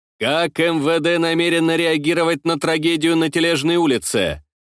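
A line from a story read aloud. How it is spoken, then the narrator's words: Stern question. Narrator (Russian): строго спросил я министра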